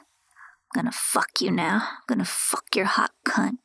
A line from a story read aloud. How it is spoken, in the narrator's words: Ben said in a deep, sexy voice